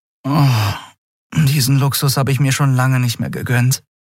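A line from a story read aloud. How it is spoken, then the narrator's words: Sighing. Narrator (German): seufzte sie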